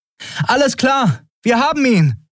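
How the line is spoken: Calling across distance. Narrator (German): rief Andriel dem wartenden Schiff zu

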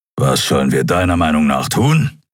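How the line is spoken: Growling. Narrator (German): knurrte er schließlich

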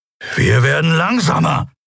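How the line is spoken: Hissing. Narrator (German): fauchte Keru

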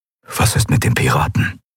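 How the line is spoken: Low voice question. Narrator (German): fragte er mit gesenkter Stimme

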